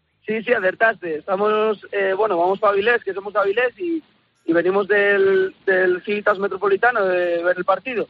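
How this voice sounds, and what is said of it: Asturian Spanish accent. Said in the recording (Spanish): “¿Tienes acento de asturiano? ... Sí, acertaste.”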